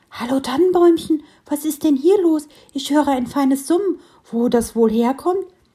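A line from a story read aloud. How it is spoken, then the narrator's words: Called out. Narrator (German): Eines der beiden Eichhörnchen war gerade aufgewacht und rief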